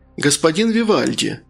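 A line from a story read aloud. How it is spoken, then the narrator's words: Sugary sing-song voice. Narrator (Russian): сахарным голоском пропел портье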